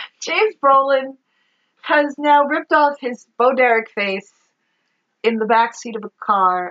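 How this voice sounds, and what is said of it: Usual voice. Nothing is said of it.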